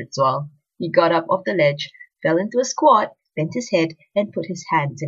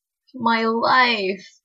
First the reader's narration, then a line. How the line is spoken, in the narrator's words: moaned Ritzwell